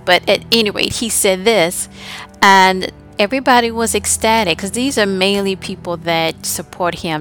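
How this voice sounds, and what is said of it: Southern American accent. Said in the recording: “I'm a southern accent there.”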